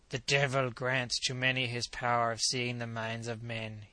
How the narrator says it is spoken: he said quietly

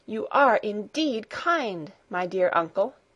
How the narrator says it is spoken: she exclaimed

